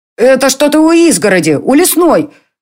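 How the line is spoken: Shout. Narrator (Russian): крикнул Конор

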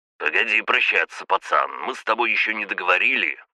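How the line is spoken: Rough. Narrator (Russian): грубо сказал он

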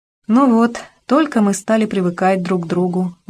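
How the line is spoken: Sighing. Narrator (Russian): вздохнул Мэтт

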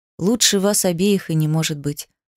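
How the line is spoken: Quiet speech. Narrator (Russian): проговорил он тихо

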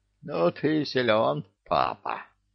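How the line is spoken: Wheezed. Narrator (Russian): прохрипела центральная

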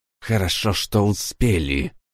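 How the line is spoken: Whisper through teeth. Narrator (Russian): сквозь зубы прошептала Улла

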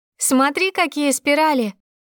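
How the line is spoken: Boastful shouting. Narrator (Russian): кричала Ирина, хвастаясь

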